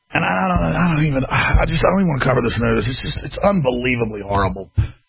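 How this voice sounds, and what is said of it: Texas accent. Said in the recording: “I talk in my real Texas accent and don't put on airs”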